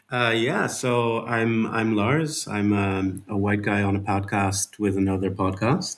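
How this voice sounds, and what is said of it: Dutch accent. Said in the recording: “I'm Dutch, as you can hear from my um, my uh, my accent”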